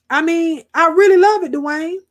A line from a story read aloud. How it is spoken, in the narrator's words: exclaimed Johnny, excitement lighting up his eyes and mood again